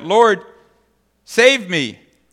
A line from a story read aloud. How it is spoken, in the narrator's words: He cried out